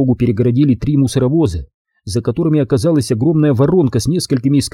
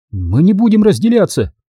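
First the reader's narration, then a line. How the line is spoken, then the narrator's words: Shout. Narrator (Russian): выкрикнула Анна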